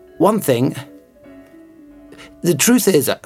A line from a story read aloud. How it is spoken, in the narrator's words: I begin hesitantly